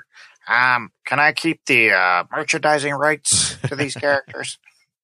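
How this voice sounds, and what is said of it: Imitates another person's voice. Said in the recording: “my George Lucas impression”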